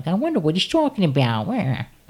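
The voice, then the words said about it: Imitates another person's voice. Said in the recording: “Is that a good Joan Cusack impression? ... No”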